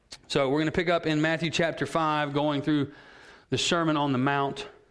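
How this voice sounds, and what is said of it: Weak, recovering voice after losing it. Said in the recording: “my voice was leaving, and it finally left on Sunday, and is slowly making its way back. And so forgive me if I cough from time to time.”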